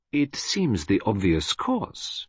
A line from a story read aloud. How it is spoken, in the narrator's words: murmured Poirot, as though debating with himself